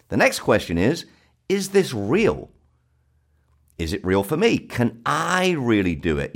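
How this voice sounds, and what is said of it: South London accent. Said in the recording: “my accent, I'm from the South. And if you've noticed that accent, ... I'm from a place called Brixton in South London.”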